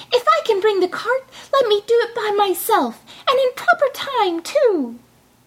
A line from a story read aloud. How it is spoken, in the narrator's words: cried Tom Thumb